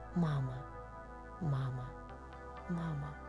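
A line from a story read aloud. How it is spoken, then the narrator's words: Childlike whisper. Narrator (Russian): маленький волчонок шептал одно единственное слово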